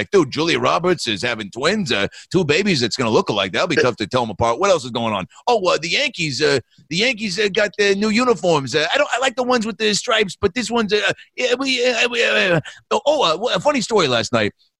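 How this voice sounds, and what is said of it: Impression of Tony Danza. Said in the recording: “his impression”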